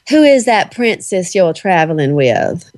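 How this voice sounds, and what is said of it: Southern accent. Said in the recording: “treat us to your Southern draw or accent ... Well, I'm doing it right now”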